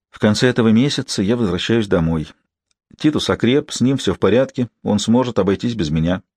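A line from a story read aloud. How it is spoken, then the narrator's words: Quiet speech. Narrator (Russian): Кида негромко сказала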